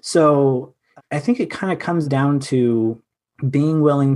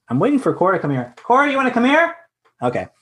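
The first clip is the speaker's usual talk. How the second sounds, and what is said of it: Yelling to someone. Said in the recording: “Sorry for yelling,”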